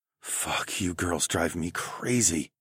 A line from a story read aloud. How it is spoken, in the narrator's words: whispered